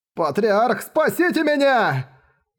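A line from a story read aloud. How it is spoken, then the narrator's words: Terrified, desperate scream. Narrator (Russian): Закричал голосом, полным страха и отчаяния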